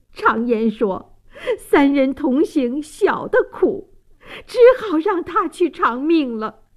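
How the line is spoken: Choked sobbing. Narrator (Chinese): 王大妈泪流满面，泣不成声，哽咽道

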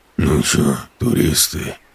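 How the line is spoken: Hoarse, dull, burnt-out voice. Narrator (Russian): Произнес он хрипло, и голос у него оказался тусклый, выжженный, будто связки прокурены до дыр

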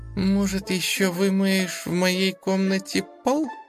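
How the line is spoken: Innocent tone. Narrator (Russian): Невинным голосом продолжила Лиза

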